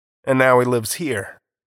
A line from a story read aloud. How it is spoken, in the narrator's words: said Foster